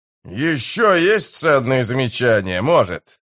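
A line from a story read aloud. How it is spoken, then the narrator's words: Growl. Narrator (Russian): прорычал Спрут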